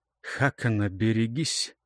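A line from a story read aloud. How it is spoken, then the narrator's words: Quiet warning. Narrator (Russian): негромко, сказал ему Тьельвар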